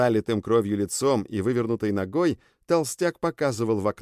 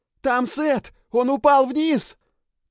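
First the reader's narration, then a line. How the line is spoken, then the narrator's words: Shouting. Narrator (Russian): Это кричал пузырь Филли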